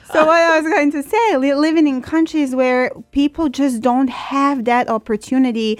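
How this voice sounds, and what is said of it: Slight Serbian accent. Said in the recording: “I grew up in Serbia. I don't know if you can say by my accent a little bit.”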